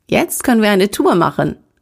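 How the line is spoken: Joyful exclamation. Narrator (German): rief Andreas freudig aus

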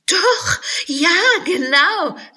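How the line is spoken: Laughing. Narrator (German): lachte Alice

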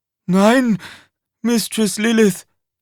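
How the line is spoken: Panting. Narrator (German): keuchte er

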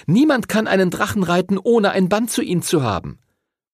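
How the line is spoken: Calling out. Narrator (German): rief Chloe

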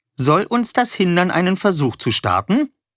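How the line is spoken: Cheerful. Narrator (German): sagte Wolle fröhlich

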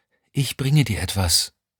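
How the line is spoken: Whispered. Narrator (German): flüsterte sie

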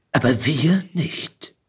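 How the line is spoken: Quiet but emphatic. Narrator (German): fügte er leise, aber mit Nachdruck hinzu

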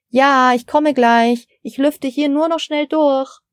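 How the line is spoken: Calling to another room. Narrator (German): rief Frau Steiner in Richtung Küche

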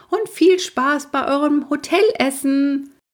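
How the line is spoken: Shouted. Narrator (German): schrie Großmutter

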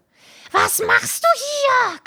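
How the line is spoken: Shrieking. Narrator (German): kreischte sie

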